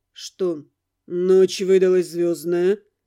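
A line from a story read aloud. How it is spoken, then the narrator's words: Polite casual question. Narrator (Russian): Почти светским тоном спросил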